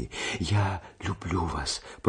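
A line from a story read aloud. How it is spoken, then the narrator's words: Whisper. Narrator (Russian): прошептала она еще раз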